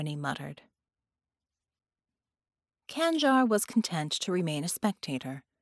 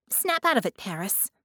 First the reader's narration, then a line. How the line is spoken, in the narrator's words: Harmony said sharply